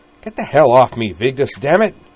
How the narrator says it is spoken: snapped

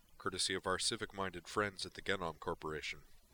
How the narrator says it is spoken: Grissom added dryly

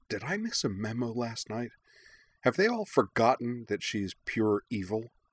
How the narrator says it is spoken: Suki leaned toward Katara and muttered

